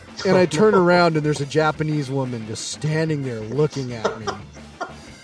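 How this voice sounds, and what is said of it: Usual voice. Nothing is said of it.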